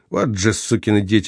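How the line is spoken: Muttered. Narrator (Russian): пробормотал майор

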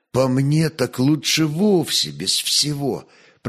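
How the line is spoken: Whisper. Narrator (Russian): прошептал он

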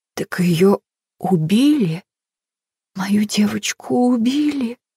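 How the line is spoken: Weak, hoarse. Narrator (Russian): Голос Хелен прозвучал слабо, хрипло

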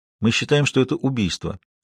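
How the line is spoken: Calm. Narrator (Russian): спокойно сказала Маша

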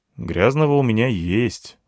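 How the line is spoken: Sigh. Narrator (Russian): вздохнул я

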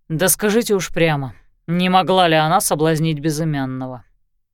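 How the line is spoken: Grumbling. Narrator (Russian): проворчал Лещинский

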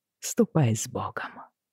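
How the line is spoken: Whisper. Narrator (Russian): прошептал

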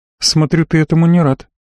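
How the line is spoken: Sad, smiling. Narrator (Russian): грустно улыбнулась

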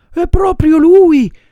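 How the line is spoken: Woman shrieking. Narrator (Italian): strilla la signora Rosaura

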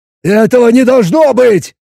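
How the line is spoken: Yelled. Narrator (Russian): заорал Боб

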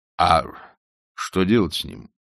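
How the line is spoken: Plain question. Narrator (Russian): спросил Жорж

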